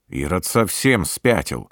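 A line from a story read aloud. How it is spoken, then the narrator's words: Grumbled. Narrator (Russian): проворчал капитан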